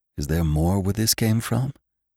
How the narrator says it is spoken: he whispered

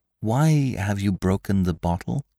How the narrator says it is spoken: asked softly

